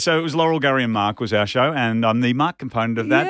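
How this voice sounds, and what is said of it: Rich radio announcer voice. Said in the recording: “Can you hear his voice though? How wonderful radio voice is that?”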